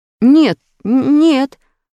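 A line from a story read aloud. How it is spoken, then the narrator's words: Frightened babbling. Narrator (Russian): уже испуганно залепетал Петя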